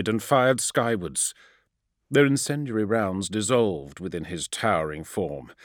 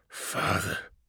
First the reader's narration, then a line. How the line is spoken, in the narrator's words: breathed the avatar of burning misery in reply